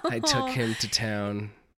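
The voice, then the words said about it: Sultry, seductive voice. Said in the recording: “that sexy voice”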